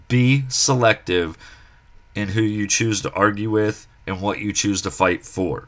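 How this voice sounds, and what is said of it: Slightly scratchy voice. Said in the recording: “My voice is a little scratchy”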